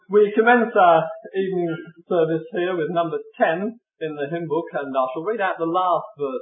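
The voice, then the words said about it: Birmingham English accent. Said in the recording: “I live in Birmingham, born and bred there ... my accent”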